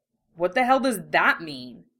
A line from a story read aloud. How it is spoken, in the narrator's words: Russell demanded, snorting in annoyance